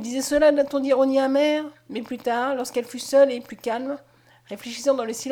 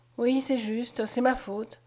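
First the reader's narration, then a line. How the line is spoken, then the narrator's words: Murmured. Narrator (French): murmura Mademoiselle Henriette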